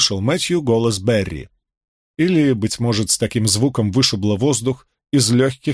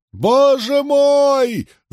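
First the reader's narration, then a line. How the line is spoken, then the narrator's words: Wailing. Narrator (Russian): завопил печатник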